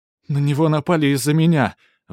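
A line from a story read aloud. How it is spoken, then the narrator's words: Shouting. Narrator (Russian): выкрикнул Ивон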